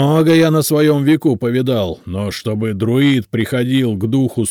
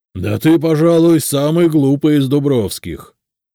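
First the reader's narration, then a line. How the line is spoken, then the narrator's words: Grumbling. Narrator (Russian): пробурчал он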